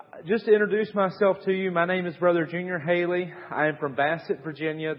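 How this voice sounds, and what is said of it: Southern US accent. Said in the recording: “if you haven't figured out by my accent, yes, that is part of the South ... they tell me I have a bad Southern accent”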